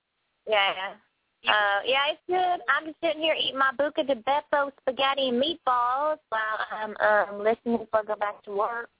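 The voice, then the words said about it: Put-on Southern US accent. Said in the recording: “I can do my southern accent now ... Oh, it's a southern accent”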